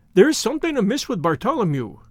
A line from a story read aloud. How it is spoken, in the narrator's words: he cried